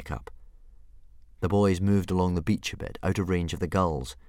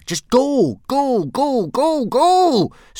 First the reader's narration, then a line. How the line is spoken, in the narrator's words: screamed Hiccup, flapping his arm up and down frantically